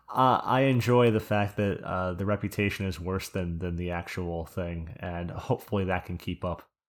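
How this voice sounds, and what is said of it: New Jersey accent. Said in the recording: “I heard your Jersey accent. I was like, I know like 10 guys like this.”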